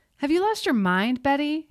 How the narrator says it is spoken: He yelled into the darkness, from right above her

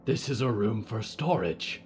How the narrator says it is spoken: they rasped

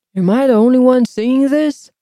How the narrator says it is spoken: Posse cried

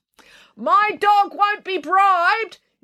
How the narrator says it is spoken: yelled April

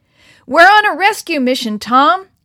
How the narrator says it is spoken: shouted his father above the roar of the waves

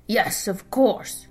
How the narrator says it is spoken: a raspy voice grumbled

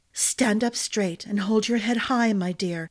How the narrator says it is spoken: Glynna whispered

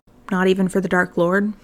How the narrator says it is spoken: Potter murmured

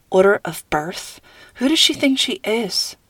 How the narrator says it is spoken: Nora mumbled

